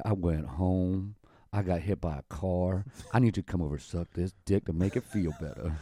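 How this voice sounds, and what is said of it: Sultry R&B singer-style voice. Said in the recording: “talking like my R&B voice ... does that sound sexy”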